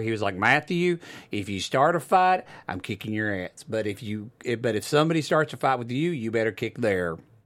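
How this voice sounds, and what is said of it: Southern Oklahoma accent. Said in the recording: “little southern accent. ... my dad's did. Oklahoma. ... I just do that naturally.”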